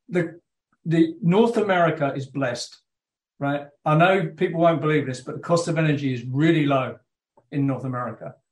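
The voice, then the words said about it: British accent. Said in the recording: “I've got this British accent. Although I'm told I don't have that anymore when I go back to the UK.”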